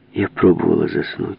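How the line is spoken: Plain. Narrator (Russian): сказала она

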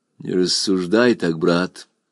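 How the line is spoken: Quiet. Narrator (Russian): тихо произнес Гюнильф

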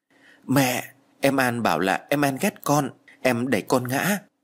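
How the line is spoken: Whimpering child. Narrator (Vietnamese): con gái của tôi mếu máo nói

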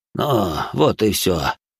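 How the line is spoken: Breathed out. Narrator (Russian): выдохнул Арсен

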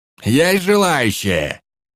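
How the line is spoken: Excited bark into microphone. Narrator (Russian): гаркнул Энгельс в микрофон, уже не скрывая азарта

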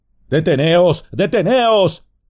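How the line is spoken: Shouting while rushing. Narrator (Spanish): gritó precipitándose

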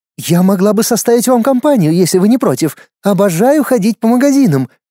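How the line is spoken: Exclaimed. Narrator (Russian): воскликнула Кэти

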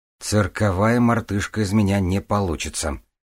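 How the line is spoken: Gloomy statement. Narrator (Russian): мрачно констатировал Чарльз

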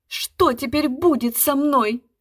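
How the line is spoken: Exclaiming, then sobbing. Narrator (Russian): Воскликнула при помощи суфлера Арвидова и, бросившись в кресло, зарыдала

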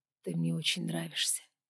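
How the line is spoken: Whispered. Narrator (Russian): прошептал он

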